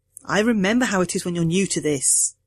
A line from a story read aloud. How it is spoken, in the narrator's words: I said